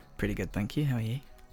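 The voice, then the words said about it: Soft, soothing radio voice. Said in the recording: “doing my radio voice ... your radio voice ... I like it when you go softly spoken ... She said soothing”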